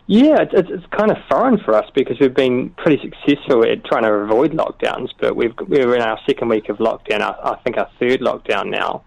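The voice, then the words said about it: New Zealand accent. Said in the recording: “all the way from New Zealand ... How do you find our accent?”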